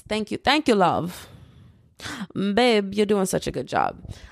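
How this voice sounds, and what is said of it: Poor attempt at British accent. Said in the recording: “I hate the accent that I just tried to do”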